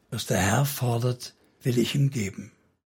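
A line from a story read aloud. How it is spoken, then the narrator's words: Girl speaking softly. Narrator (German): das Mädchen leise sagte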